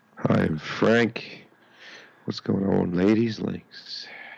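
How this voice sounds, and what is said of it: Sexy late-night radio voice. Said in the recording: “Got a sexy... This is his after dark radio voice.”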